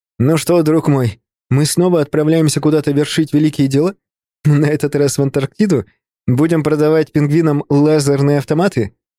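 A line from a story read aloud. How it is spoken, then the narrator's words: Ending in infectious laughter. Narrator (Russian): В конце так заразительно рассмеялся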